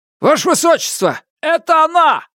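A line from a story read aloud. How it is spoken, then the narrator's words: Ghostly shout. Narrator (Russian): крикнул один из телохранителей Сизин, призрак в тяжелых доспехах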